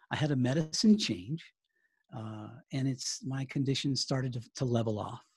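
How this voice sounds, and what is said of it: Non-British, American English accent. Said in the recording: “I can spot by your accent that you're not from the fair shores of the United Kingdom”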